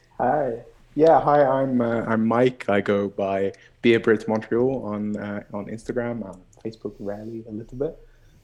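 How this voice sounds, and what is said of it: British accent. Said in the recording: “as you might be able to tell from my accent, I am from the UK”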